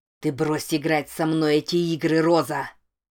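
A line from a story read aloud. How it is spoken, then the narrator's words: Growled. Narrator (Russian): прорычал он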